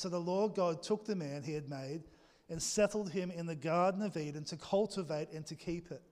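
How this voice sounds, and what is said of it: Australian accent. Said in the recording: “my Aussie accent.”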